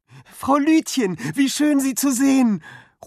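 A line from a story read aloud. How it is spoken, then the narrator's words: Relieved call. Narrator (German): ruft Finn erleichtert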